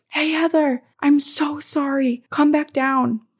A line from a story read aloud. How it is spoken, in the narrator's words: I hear my dad yell from the bottom of the stairs